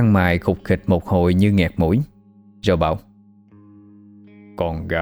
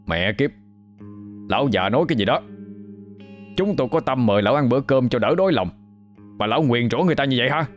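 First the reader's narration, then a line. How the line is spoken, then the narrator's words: Loud group scolding. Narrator (Vietnamese): Những người khác cũng cao giọng mắng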